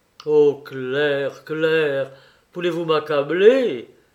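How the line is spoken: Desperate cry. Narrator (French): s'écria Raymond d'une voix désespérée

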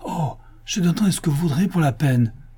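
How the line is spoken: Exclaiming man. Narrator (French): s'écria le riche juif

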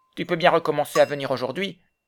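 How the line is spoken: Surly tone. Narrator (French): dit-il d'un ton revêche

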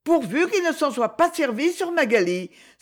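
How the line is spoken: Exclaimed. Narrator (French): s'écria Lady Isabelle

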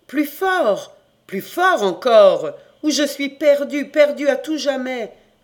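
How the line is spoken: Shouting persistently. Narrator (French): criait toujours Noélique

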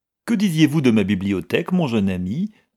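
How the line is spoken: Cheerful question. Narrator (French): demanda gaiement M

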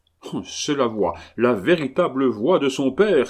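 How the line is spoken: Excited cry. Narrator (French): s'écria le capitaine

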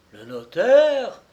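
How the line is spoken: Exclaiming. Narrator (French): s'exclama

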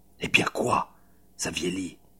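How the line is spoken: Offended hiss. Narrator (French): siffla Judishna froissé

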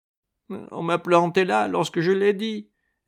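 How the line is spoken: Whimpering reply. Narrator (French): répliquai-je en pleurnichant

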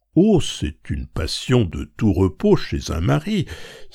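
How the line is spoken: Exclaiming, stifling a devilish laugh. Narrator (French): s'écriait madame Bontemps en étouffant un rire satanique

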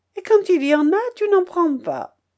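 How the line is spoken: Exclaiming. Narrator (French): Daniel s'écriait

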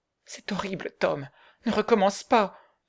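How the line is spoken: Exclaiming. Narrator (French): s'écria Becky

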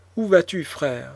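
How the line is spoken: Exclaimed. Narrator (French): s'écria Constanza

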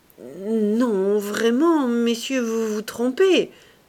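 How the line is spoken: Stammering, falsely modest. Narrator (French): balbutiait Saccard avec une fausse modestie

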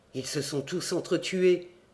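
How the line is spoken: Murmuring. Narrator (French): murmurai-je

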